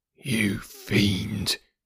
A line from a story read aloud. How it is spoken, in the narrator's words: he kept on muttering